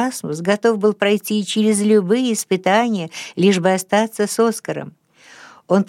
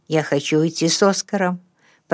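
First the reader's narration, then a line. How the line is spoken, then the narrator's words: Mumbling. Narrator (Russian): пробормотал он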